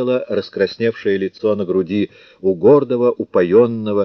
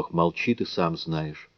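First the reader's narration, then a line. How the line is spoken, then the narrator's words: Barely audible sigh-like whisper. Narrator (Russian): Она ответила так тихо, словно то был чуть слышный вздох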